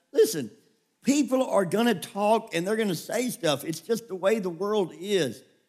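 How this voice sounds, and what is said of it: Tennessee Southern accent. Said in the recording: “When I was in California, they made fun of my accent ... so in Tennessee”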